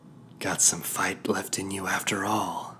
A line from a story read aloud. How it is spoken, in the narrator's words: she purred